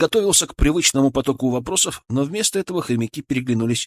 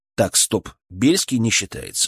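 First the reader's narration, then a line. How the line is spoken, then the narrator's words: Stern interruption. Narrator (Russian): строго прервал его я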